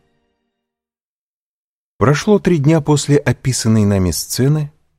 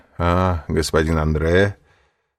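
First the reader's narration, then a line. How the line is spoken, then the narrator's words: Half-mocking tone. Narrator (Russian): сказал тот своим обычным полунасмешливым тоном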